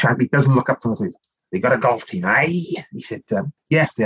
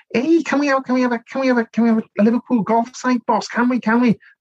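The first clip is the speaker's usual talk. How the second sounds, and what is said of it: Squeaky high-pitched voice. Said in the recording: “squeaky voice”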